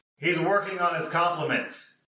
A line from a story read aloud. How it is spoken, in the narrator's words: The older one yells